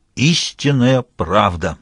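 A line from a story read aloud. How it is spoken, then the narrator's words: Solemn, with a louder snort. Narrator (Russian): торжественно подтвердил и этот, хмыкнув немного погромче, должно быть, также для большей убедительности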